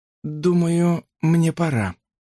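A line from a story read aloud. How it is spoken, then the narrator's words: Strained, forced out. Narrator (Russian): выдавила Брук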